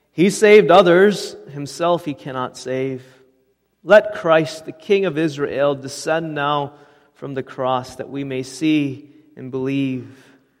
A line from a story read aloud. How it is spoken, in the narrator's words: the chief priests, mocking, said among themselves with the scribes